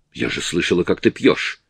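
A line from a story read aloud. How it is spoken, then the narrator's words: Sharp. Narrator (Russian): резко сказала Анни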